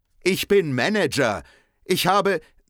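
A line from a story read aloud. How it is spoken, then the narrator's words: Called out. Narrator (German): ruft Henry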